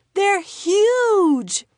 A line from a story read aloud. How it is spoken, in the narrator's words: he exclaimed